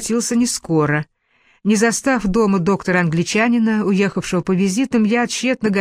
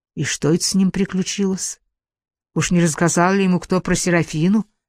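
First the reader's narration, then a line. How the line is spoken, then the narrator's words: Toothless grinning whisper. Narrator (Russian): прошептала, ухмыляясь беззубым ртом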